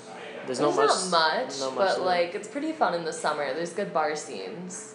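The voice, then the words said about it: Cleveland accent. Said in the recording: “So you have a Cleveland accent? ... Yeah, I do. ... People bring it up all the time.”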